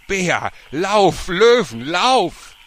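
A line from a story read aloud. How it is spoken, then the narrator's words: Cut-off cry. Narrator (German): aber sie konnte ihren Satz wieder nicht beenden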